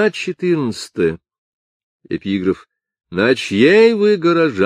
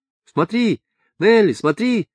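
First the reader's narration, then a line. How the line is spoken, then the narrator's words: Several voices shouting over each other. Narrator (Russian): кричали наперебой 5 или 6 голосов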